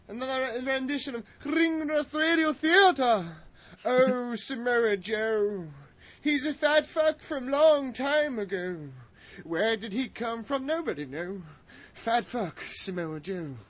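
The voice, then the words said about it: Put-on Shakespearean theatrical accent. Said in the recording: “I'm going to do it in my Shakespearean accent. ... That sounds like a ghost.”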